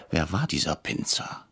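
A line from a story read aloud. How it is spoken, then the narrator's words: Whisper. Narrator (German): flüsterte ich Herrn Brecher zu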